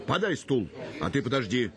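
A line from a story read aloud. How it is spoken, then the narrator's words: Shouted. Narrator (Russian): крикнул он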